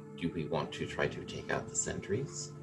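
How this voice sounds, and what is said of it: Low, hushed voice. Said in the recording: “Kind of in a low voice”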